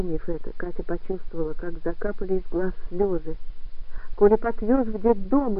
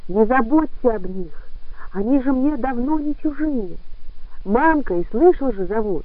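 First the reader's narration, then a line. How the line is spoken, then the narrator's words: Shouting into ear. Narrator (Russian): она все кричала ему в ухо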